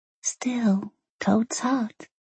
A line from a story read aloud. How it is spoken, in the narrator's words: she said softly, but sad